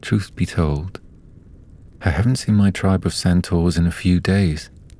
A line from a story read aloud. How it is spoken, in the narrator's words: Galder sighed and confessed